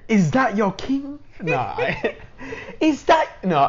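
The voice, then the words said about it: Poor attempt at African accent. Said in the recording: “worst African accent I've ever heard in my entire life ... In your African accent ... I feel like it's coming out British ... It's not even British”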